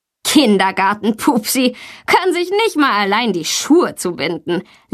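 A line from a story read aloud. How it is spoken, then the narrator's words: Mocking laughter. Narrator (German): lacht Tommy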